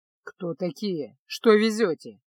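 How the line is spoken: Grumbled in foreign tongue. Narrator (Russian): пробурчал стражник на Арконском

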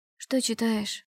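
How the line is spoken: Sleepy question. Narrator (Russian): еще сонным голосом спросила

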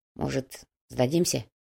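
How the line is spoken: Quiet suggestion. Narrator (Russian): тихо предложил Шамиль

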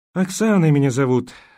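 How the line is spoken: Sighing. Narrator (Russian): вздохнула

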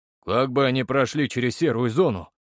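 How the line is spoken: Skeptical snort. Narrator (Russian): хмыкнул Федор

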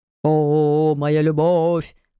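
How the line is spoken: Sung in bass. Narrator (Russian): Пропели басом

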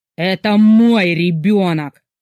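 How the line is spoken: Barely restrained growl. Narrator (Russian): прорычал он, едва сдерживаясь

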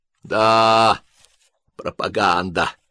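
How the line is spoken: Drunken laugh, mouth full. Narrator (Russian): адъютант, прожевывая сардинку, пьяно хохотнул

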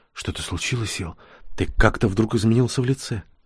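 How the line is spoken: Whisper. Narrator (Russian): Нори шепнула

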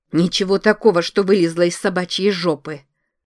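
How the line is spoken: Angry reply. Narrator (Russian): Злобно ответила Лизи

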